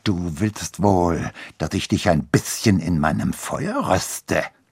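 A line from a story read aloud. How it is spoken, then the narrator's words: Menacing hiss. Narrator (German): zischte bedrohlich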